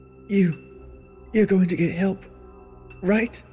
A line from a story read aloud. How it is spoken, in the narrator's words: She whimpered, shivering